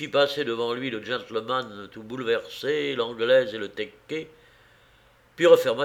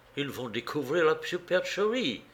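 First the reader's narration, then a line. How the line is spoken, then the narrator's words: Gentleman speaking softly. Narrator (French): fit doucement le gentleman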